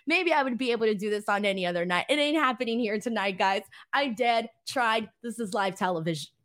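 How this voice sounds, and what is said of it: Usual voice. Nothing is said of it.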